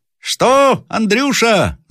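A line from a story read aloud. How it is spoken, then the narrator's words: Shouting. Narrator (Russian): закричал наконец сержант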